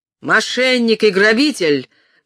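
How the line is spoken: Shouting. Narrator (Russian): крикнул сквайр

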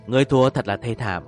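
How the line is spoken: Slightly startled. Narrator (Vietnamese): Đặng Thương Sinh khẽ giật mình

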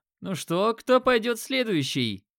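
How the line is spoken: Loud question. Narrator (Russian): громко спросил Макс

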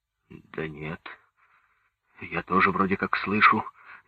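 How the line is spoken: Uncertain reply. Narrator (Russian): неуверенно ответил Петухов

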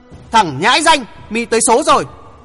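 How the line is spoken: Loud roar. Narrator (Vietnamese): Lão quái vật gầm lớn

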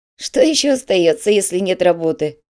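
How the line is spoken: Giggling. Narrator (Russian): хихикнул Корнелиус

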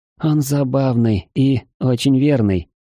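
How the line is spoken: Sighing. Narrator (Russian): вздохнула валькирия

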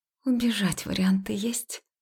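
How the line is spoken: Silently mouthed question. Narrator (Russian): тихо одними губами спросила

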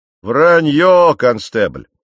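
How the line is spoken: Forceful spitting shout. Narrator (Russian): закричал один из мужчин, выплевывая слова с такой силой, что мне пришлось уворачиваться от шматков его слюны

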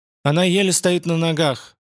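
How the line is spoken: Flat even voice. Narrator (Russian): заметил он ровным голосом

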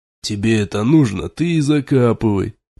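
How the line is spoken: Grumbling rider. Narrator (Russian): проворчал один из всадников

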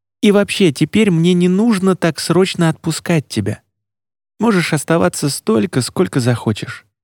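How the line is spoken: Timid, hopeful. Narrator (Russian): сказал он робко и с надеждой

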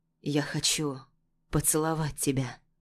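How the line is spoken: Husky. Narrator (Russian): хрипло произносит Давуд

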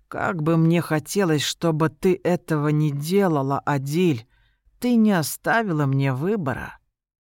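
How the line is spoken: Weary voice. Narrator (Russian): Вэнс устало произнес

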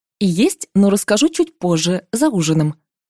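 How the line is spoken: Plain. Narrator (Russian): ответила я

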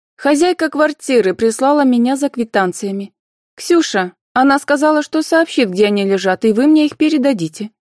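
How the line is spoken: Calm, loud answer. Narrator (Russian): спокойно и громко отвечала Анфиса

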